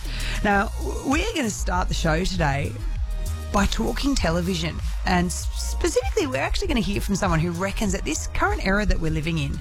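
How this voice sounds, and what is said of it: Husky, fading voice. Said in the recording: “I think my voice might be a little bit husky. I'm starting to lose it”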